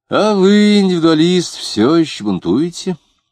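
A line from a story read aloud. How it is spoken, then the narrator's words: Bored question, sigh. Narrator (Russian): скучновато спросил он и вздохнул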